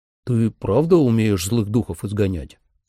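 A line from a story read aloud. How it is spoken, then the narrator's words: Plain. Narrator (Russian): спросил Трой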